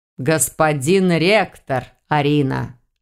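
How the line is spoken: Growl. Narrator (Russian): снова рыкнул ежик

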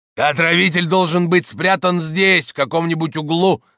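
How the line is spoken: Shouting. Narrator (Russian): закричал Камнелом

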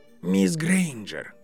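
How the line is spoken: Soft, tired call. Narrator (Russian): позвал директор мягким, а может, просто уставшим голосом

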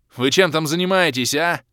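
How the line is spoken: Barked. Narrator (Russian): рявкнул полуобернувшийся Крей

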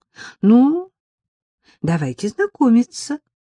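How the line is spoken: Began cheerfully. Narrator (Russian): бодро начала Эллочка

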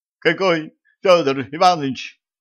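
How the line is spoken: Hysterical starling exclamation. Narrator (Russian): С неожиданной истерикой воскликнул скворец

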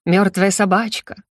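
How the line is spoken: Chuckling. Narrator (Russian): хохотнула я

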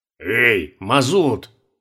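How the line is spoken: Exasperated barked shout. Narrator (Russian): Рявкнул штурман, все-таки не выдержавший такой неумелости

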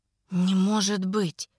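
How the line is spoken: Breathless exhale. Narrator (Russian): Выдохнула

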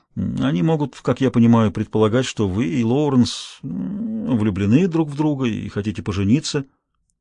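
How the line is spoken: Awkward mumble. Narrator (Russian): Чувствуя себя не очень ловко, я пробормотал

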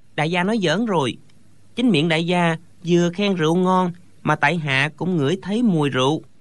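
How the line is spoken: Smiling. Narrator (Vietnamese): Thạch Phá Thiên mỉm cười nói

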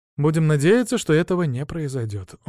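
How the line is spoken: Sighing. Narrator (Russian): вздохнул я

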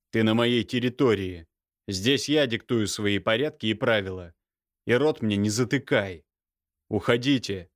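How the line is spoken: Rather rude. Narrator (Russian): довольно грубо выразился Михаил

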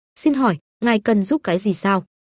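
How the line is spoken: Polite smiling question. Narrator (Vietnamese): Nhân viên công tác mặt mỉm cười mà hỏi

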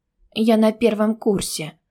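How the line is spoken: Weak-voiced objection. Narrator (Russian): возразила ему слабым голосом

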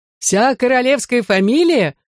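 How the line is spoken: Old men laughing. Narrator (Russian): хохотали старики

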